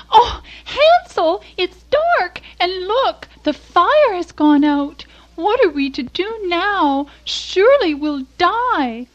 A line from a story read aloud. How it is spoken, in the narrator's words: Gretel cried out